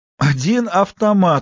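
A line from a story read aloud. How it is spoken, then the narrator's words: Man exclaiming. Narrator (Russian): воскликнул он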